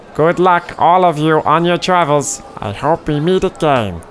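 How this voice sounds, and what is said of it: Performed character voice. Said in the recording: “I like doing this voice.”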